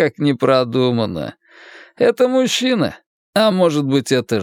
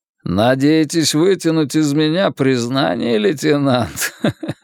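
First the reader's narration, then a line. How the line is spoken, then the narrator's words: Melodic laugh. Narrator (Russian): Кадмин мелодично рассмеялся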